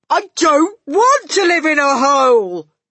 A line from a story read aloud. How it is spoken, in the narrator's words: Bruno shouted